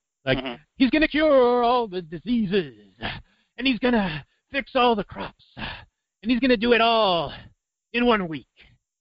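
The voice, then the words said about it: Reverential preacher-style speech. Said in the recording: “he gives it in a reverential, like, I don't know how you describe it, but like the black minister style ... that's a really good imitation”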